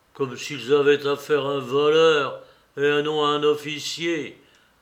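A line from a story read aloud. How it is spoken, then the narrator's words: Grumbling. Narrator (French): grommela Mitya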